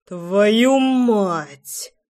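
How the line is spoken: Growling curse. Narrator (Russian): прорычал я

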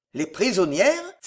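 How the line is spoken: Old man's muffled exclamation. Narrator (French): s'exclama sourdement le vieux Pardaillan

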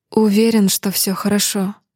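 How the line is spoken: Sighed. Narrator (Russian): вздохнула я

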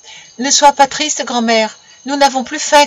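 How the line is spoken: Shouted in unison. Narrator (French): criaient-ils tous ensemble

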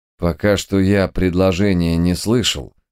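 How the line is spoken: Calm reply. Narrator (Russian): спокойно ответил читер

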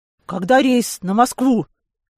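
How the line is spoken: Breathless exhale. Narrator (Russian): я, не переводя дух, выдохнул

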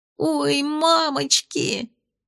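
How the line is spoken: Moan then scream. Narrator (Russian): простонала она и тут же закричала

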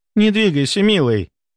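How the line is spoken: Exclaiming. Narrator (Russian): воскликнула графиня

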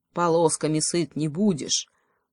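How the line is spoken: Grumbling crow. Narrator (Russian): проворчала ей в ответ другая ворона

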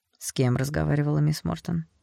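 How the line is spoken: Dry question. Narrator (Russian): сухо спросил капитан

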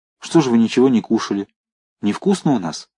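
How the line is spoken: Frightened speech. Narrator (Russian): испуганно сказала

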